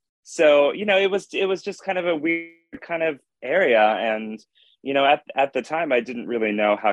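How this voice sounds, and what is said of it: Usual voice. Nothing is said of it.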